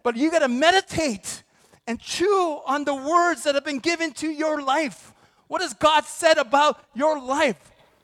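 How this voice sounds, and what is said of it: Yelling preacher delivery. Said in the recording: “I don't know why I'm yelling.”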